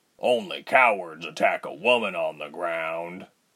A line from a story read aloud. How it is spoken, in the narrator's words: Bear grumbled